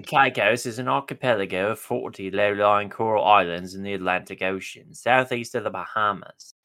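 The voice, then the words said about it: Put-on British accent. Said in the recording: “I'm getting triggered by your accent. ... I hate arguing football with British people.”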